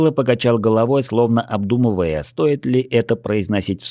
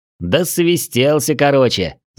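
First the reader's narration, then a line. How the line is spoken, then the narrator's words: Laughing. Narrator (Russian): засмеялся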